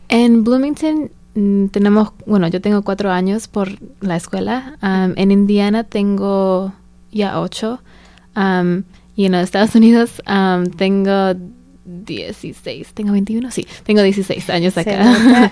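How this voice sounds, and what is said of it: Spanish with US-raised accent. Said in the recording (Spanish): “Por el acento de tu español, que te criaste aquí en Estados Unidos”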